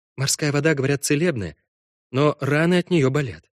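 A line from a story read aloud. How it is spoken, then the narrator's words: Quiet. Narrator (Russian): Инси тихо сказала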